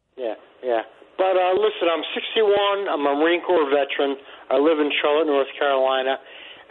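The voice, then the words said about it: Long Island accent. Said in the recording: “that doesn't sound like a North Carolina accent ... I'm originally from Long Island”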